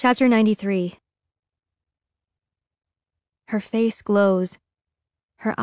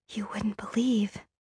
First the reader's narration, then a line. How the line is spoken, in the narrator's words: she whispers